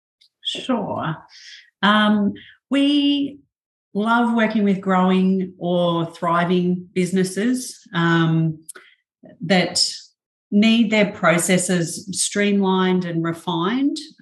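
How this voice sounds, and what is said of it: Australian accent. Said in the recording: “two Australians ... we've got a very unique accent”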